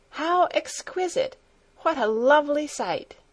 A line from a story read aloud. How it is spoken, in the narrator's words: she exclaimed